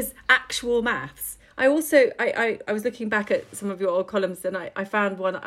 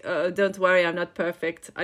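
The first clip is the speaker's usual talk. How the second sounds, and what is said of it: Imitates another person's voice and accent. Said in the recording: “I don't know if that's her accent, but anyway... It's essence of Claudia Schiffer. It's good”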